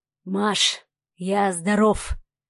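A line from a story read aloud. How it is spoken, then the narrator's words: Hoarse voice. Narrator (Russian): донесся хриплый голос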